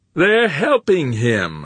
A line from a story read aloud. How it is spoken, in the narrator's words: Humphreys roared time and again